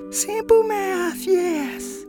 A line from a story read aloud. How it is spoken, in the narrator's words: says someone who's turned their voice shrill